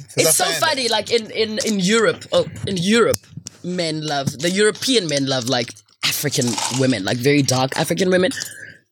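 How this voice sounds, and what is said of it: African accent. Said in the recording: “your African accent”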